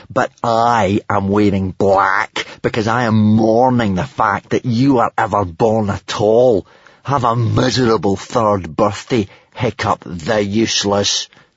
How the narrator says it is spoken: Snotlout had snarled

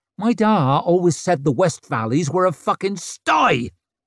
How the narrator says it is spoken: shrieked at his back

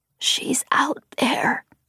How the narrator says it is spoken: Gran-Gran said, ancient voice cracking as she whispered the words

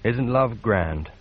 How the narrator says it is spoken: he murmured to himself

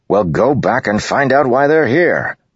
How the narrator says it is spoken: the officer bellowed

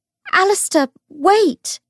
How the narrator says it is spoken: cried

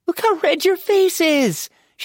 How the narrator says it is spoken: cackled

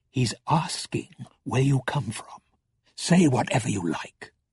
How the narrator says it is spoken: Balthamos murmured

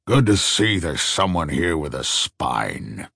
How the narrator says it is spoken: the old man muttered

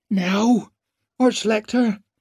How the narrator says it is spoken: begged the engineer

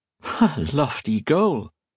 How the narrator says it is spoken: Colette said, laughing

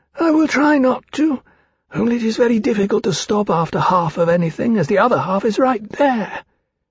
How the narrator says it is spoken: Kulingile said sadly

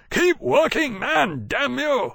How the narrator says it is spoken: shouted

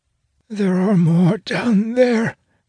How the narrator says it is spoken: she croaks, eyes leaking tears

